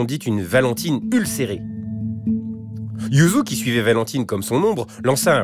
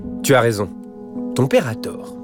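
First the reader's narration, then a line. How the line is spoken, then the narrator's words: Calm retort. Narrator (French): rétorqua calmement Hélène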